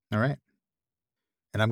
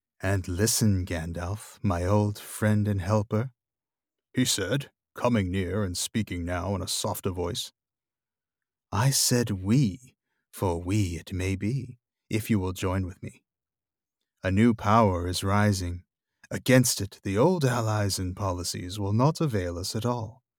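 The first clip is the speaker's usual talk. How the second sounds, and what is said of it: Saruman character voice. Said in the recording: “I'm gonna try and do my Saruman beta voice too ... Saruman's getting a lot of beta work tonight”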